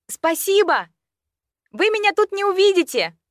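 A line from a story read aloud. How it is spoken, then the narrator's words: Shouted. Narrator (Russian): я крикнула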